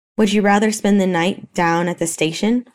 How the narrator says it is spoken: Hopper snapped

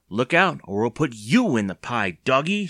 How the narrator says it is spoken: she exclaimed

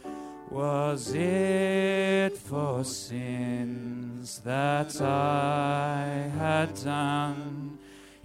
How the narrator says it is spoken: he groaned

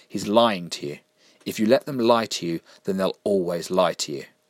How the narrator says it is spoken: said Sarah firmly

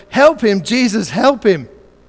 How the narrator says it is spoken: some lady in the back row yelled

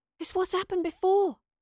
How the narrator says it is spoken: gasped Astrid in awe

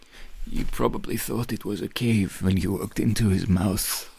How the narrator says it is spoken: the woman said and sighed

